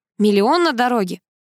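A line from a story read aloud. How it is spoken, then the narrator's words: Snorting. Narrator (Russian): хмыкнул Гарик, который ни на секунду не устыдился своего поступка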